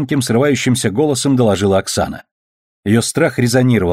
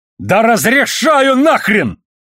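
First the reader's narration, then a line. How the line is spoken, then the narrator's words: Barked shout. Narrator (Russian): рявкнул Холден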